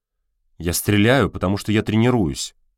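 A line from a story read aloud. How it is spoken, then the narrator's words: Snapping back. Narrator (Russian): огрызнулся Костя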